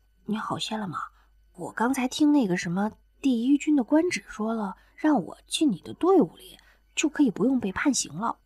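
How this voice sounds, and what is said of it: Soft, quiet voice. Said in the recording (Chinese): “挤出一个轻松的笑来，小声问着”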